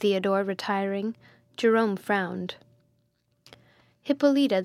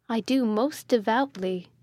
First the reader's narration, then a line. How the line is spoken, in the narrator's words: said Hippolyta